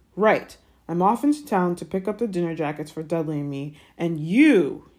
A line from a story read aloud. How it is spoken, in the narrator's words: he snarled at Harry